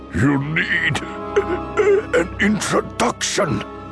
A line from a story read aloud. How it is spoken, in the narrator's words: Dooku choked out